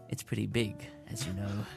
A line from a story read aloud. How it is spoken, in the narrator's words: breathed